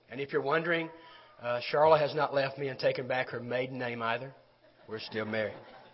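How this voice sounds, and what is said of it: Sick, weakened voice. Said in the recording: “I'm a little under the weather, as you can tell by my voice ... I don't have my teacher voice this morning”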